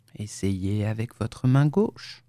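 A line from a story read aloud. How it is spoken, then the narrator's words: Low voice. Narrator (French): dit-il, à voix basse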